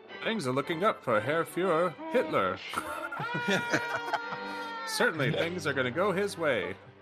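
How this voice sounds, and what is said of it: Old newsreel narrator, New England accent. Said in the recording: “Serial narration. Like the World War II newsreel ... With sort of like that, like, New England accent”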